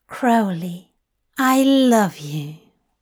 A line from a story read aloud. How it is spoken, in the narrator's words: Aziraphale purred